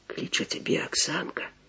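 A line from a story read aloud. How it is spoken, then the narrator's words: Delighted, envious whisper. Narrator (Russian): Прошептал захоплением и як бы с зайздростью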